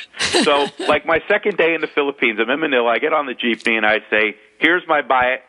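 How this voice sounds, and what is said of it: Slight New York and South Florida accent. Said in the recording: “my accent being a little New Yorkish and uh, South Florida mixed together”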